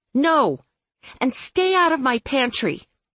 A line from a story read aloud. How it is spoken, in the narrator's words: caused her to spin and yell after him